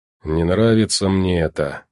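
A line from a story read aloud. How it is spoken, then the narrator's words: Grumbling. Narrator (Russian): проворчал он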